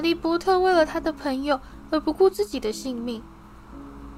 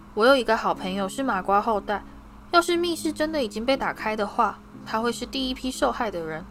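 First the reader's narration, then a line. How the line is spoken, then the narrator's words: Stern, sharp. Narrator (Chinese): 哈利厉声说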